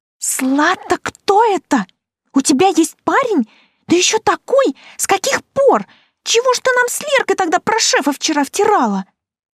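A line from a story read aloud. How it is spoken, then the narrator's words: Hissing. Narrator (Russian): зашипела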